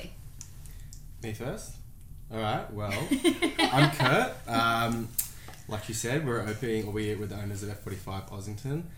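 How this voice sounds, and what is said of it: Australian accent. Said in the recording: “they are from Australia, so they have a dope accent.”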